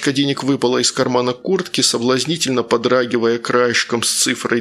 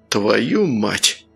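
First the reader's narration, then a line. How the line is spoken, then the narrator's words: Breathless exhale. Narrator (Russian): выдохнул Сергей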